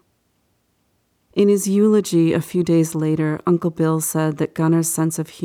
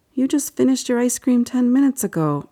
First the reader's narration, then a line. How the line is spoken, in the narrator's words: Uncle Bill said